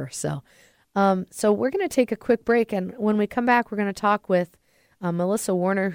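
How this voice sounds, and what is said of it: Congested, slightly off voice. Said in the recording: “I'm getting hit with some allergies, so my voice sounds a little off”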